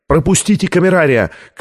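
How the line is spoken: Shouting. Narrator (Russian): крикнул Шартран

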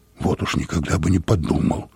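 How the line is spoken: Muttering. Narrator (Russian): пробормотал я

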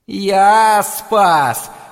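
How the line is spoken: Wolf's howl. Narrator (Russian): взвыл волк

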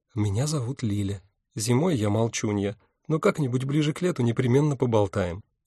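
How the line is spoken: Whispering. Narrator (Russian): брюнетка шепнула

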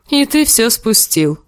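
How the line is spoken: Laughing. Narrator (Russian): засмеялся Харвин

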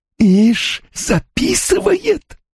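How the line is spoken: Hissing. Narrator (Russian): прошипела она

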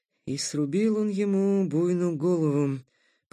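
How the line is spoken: Stunned mutter. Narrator (Russian): пробормотал потрясенный Такэда спустя минуту

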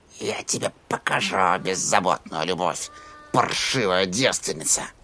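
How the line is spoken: Old woman muttering. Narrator (Russian): пробормотала старуха

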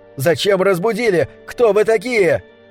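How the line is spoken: Shouting. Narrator (Russian): он кричал на них

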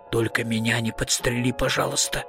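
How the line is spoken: Whisper. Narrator (Russian): прошептал он

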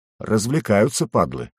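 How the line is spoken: Muttered through gritted teeth. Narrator (Russian): сквозь зубы процедил мисс

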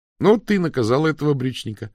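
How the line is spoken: Joyful reply. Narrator (Russian): радостно ответил Пилу

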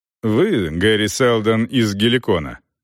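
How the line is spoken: Calm question. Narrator (Russian): спокойно спросил Расс

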